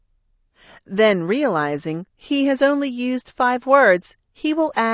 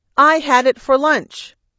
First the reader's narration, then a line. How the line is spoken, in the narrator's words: announce loudly